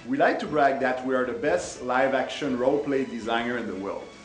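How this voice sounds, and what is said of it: French-Canadian accent. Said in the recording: “charming French-Canadian accents ... our French accent”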